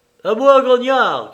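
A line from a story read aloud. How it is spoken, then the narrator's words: Shouted. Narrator (French): cria-t-il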